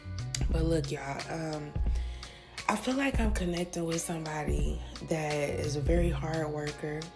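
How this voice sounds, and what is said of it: Low, tired late-night voice. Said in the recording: “It's really late, so excuse me if my voice sounds a little low.”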